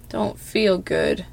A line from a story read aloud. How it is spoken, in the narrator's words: Kii moans, muffled